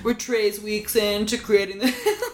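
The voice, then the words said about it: Impression of the character Paul. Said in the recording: “That was a pretty good Paul impression.”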